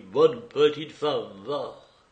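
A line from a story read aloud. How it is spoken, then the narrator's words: Young man sighing. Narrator (French): Le jeune homme se mit à soupirer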